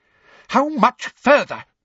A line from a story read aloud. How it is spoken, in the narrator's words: demanded Umbridge angrily from behind him